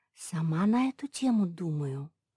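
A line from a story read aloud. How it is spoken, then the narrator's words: Whispered reply, dog. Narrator (Russian): шепнула в ответ Джек Рассел-терьер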